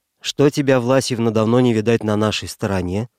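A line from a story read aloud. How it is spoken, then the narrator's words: Plain. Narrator (Russian): спросил я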